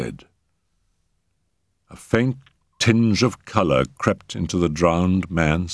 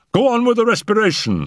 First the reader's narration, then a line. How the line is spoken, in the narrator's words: cried